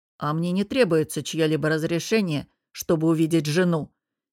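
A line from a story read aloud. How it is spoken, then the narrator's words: Rude interrupting reply. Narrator (Russian): Перебив, грубо отозвался он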